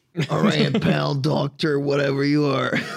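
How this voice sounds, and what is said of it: Put-on accent, different voice. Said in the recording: “That's a bit of a different voice here. ... Are you trying a new accent?”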